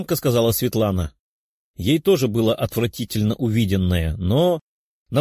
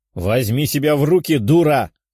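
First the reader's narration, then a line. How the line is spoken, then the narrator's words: Barely restrained bark. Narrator (Russian): рявкнула принцесса, едва сдержавшись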